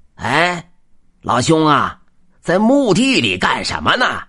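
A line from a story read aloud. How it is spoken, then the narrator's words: Old man shouting. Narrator (Chinese): 尹老头一喊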